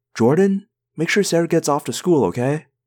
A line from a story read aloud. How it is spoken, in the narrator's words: called out